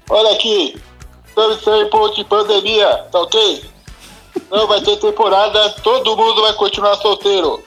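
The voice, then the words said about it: Imitates another person's voice. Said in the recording (Portuguese): “eu imito o Bolsonaro ... imite o presidente Bolsonaro”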